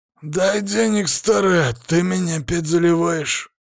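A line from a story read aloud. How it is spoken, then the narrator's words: Hoarse smoky male voice. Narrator (Russian): донесся сиплый, прокуренный мужской голос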